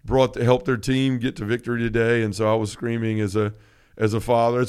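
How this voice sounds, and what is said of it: Slightly scratchy, hoarse voice. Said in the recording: “my voice is a little scratchy this morning”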